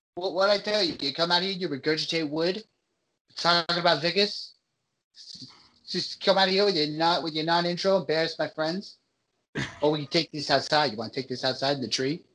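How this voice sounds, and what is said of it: Put-on Boston accent. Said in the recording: “This is my Boston accent.”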